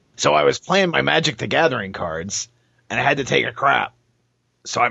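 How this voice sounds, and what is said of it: Imitates another person's voice. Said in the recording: “my Jonathan impersonation ... Nailed it. ... Perfect.”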